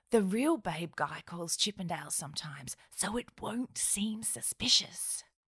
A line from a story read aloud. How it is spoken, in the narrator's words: yelled Steve, who realised he was being rowdy